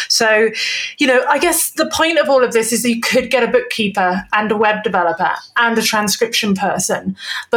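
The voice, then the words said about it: Speaker's own distinct accent. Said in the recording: “it just doesn't understand my accent at all”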